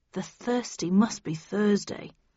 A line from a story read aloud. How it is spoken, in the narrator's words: murmured Arnie